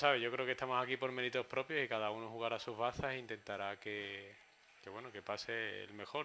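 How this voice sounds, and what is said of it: Sevillian Spanish accent. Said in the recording (Spanish): “por el acento, que nadie se equivoque ... él es sevillano”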